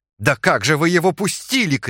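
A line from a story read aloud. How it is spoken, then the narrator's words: Shout. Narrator (Russian): крикнул секретарь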